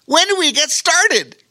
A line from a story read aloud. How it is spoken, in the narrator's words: exclaimed with enthusiasm